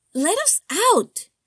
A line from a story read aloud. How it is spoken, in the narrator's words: Lucy shrieked, voice traveling beyond the barrier of his wooden door